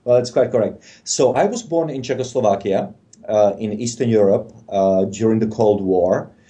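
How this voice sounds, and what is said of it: Non-American foreign accent. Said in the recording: “from your right. accent that you're not born in the United States”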